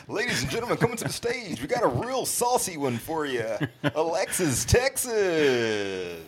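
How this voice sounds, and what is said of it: Hyped strip club DJ announcer voice. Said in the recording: “My DJ voice is your strip club DJ voice. ... white strip club DJ voice”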